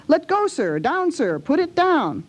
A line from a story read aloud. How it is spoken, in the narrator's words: he cried with angry frown